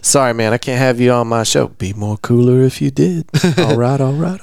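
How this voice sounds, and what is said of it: Imitates another person's voice, poorly. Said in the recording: “That was a terrible impression ... a Matthew McConaughey impression”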